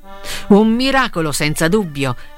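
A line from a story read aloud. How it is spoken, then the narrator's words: Laughing. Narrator (Italian): rise Frollo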